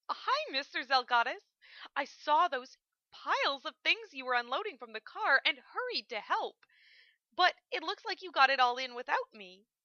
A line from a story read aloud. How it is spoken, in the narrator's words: she said cheerfully